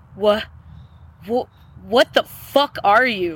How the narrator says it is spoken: Freddy stammers

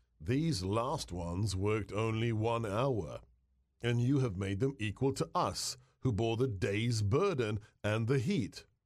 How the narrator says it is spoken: they grumbled against the landowner, saying

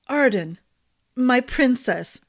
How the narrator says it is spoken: Maddox said in a choked voice

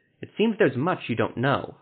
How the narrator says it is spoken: Havert said sharply

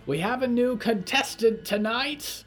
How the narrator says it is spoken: A small man with crooked teeth was screaming

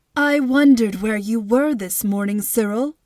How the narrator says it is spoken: Miss Tomer said

